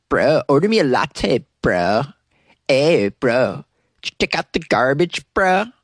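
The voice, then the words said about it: Mock Southern California bro accent. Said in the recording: “the Southern California accent ... the SoCal, bro ... It's the worst accent ever”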